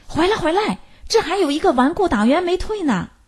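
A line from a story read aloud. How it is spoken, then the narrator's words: Loud shout. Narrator (Chinese): 一个人高声喊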